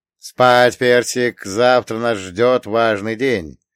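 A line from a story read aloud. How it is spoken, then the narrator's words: Grumbling mutter. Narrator (Russian): пробурчал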